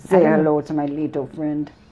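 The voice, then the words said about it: Unconvincing New York gangster voice. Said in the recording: “Like Al Pacino style classic gangster ... Kind of that New York accent? ... It just doesn't sound right for me.”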